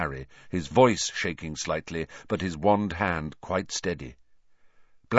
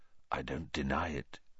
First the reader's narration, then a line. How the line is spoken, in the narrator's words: he said very quietly